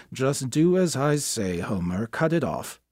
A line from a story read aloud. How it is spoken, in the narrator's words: Through a steaming towel, had muttered